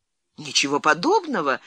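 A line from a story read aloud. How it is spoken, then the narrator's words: Exclamation. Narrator (Russian): воскликнула Леонсия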